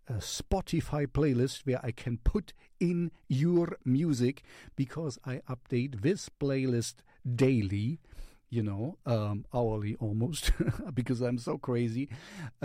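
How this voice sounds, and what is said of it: German accent in English. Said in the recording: “I'm German. So German accent in English is more German. ... I'm pretty sure I have a German accent”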